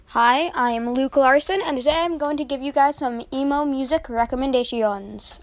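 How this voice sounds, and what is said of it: Weird put-on accent. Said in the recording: “I don't know why I said it in that weird accent.”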